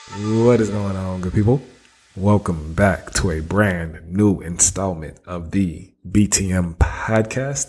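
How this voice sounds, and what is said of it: Raspy, strained voice. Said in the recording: “raspy voice ... I was actually losing my voice”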